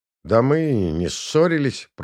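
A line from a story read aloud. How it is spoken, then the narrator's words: Genuinely annoyed grumble. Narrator (Russian): пробурчал Козлов, уже сердясь по-настоящему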